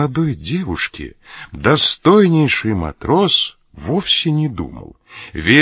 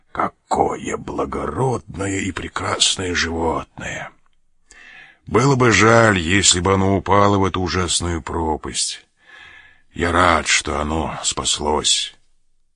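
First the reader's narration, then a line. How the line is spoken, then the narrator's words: Admiring mutter. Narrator (Russian): Мигель … восхищенно бормоча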